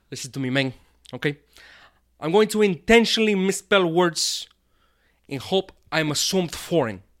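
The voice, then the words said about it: Put-on Cuban accent. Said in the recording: “Do it in your Cuban accent ... You could do that really good ... Sound like your dad or something, or your grandfather”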